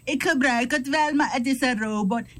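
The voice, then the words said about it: Imitated Surinamese Dutch accent. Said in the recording (Dutch): “Surinamers met hun accent.”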